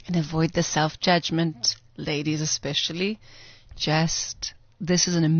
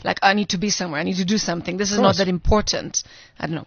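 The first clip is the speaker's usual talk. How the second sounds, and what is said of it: Put-on masculine voice. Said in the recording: “Why am I doing this masculine voice?”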